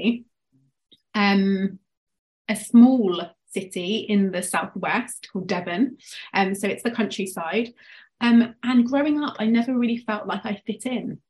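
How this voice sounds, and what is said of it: English accent. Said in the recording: “obviously you can tell from my accent, I'm from England”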